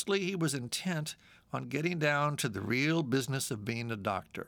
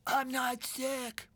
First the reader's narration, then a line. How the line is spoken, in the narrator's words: I croaked